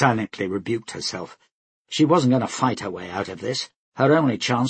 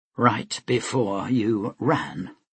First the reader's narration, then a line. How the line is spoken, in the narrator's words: Vlora said coldly